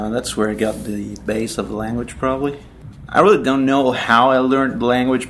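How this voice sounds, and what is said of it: Fluent English, slight American accent. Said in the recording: “You speak extraordinarily good English. And it's got an accent. I'd suggest probably American, U.S., ... I picked up a little bit of the accent there.”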